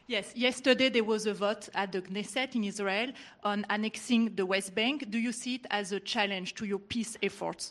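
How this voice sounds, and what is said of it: French-accented English. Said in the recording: “Where are you from? ... I'm from France. ... Beautiful accent, but we can't understand what you're saying.”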